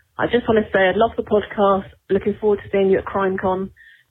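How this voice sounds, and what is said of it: British English accent. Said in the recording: “I'm originally from England ... morphed into a British”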